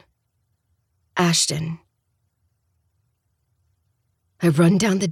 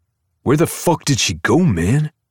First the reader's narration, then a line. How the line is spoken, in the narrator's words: He growls